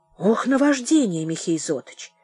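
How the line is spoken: Guilty mumbling. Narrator (Russian): виновато бормотал

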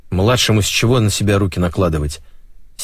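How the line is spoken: Angry. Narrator (Russian): сердито проговорил майор Грачев

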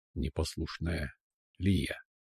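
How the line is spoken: Hoarse rasp. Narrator (Russian): Прохрипел Амир

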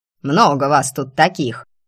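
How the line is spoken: Menacing bark, old woman. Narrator (Russian): грозно гавкнула бабка

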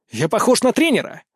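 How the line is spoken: Barked. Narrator (Russian): рявкнул я

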